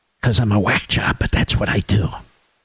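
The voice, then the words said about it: Whispering voice. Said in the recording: “why are you whispering?”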